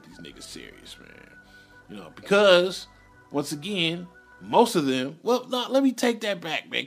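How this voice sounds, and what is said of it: Slurred, rambling speech. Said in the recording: “I'm rambling and I'm incoherent. ... I'm slurring my words”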